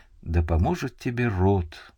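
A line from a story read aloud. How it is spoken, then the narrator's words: Mournful sigh, whisper. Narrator (Russian): Скорбно вздохнув, Венелат прошептал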